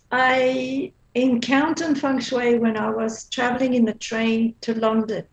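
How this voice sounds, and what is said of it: Belgian accent. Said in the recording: “I used to live in Belgium. That's what my accent is from.”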